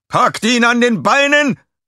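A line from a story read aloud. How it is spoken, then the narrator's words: Called out. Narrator (German): rief einer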